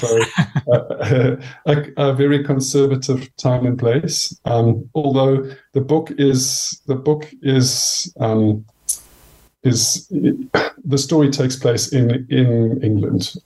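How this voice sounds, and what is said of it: South African accent. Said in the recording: “I grew up in South Africa, as you can hear from my accent.”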